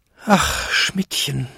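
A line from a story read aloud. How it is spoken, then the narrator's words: Despairing groan, old man. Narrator (German): stöhnte Jakob in plötzlicher Verzweiflung, als er seine alten Beine zittern fühlte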